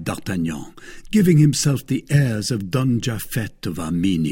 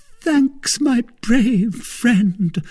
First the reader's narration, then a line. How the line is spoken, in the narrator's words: cried Milady